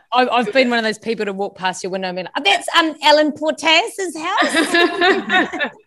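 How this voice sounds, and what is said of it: New Zealand accent. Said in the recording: “my Kiwi accent ... such Kiwi vibes”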